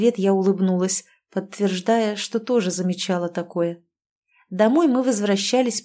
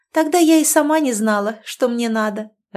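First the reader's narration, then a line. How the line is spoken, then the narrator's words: Laughing. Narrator (Russian): рассмеялась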